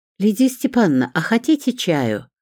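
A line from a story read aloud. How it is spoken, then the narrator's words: Excited small voice, determined. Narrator (Russian): взволнованным голоском, но решительно сказала Мариночка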